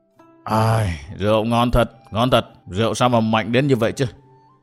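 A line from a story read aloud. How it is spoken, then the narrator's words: Old man yawning, muttering. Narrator (Vietnamese): lão già ngáp mấy tiếng ... mồm thì lẩm bẩm nói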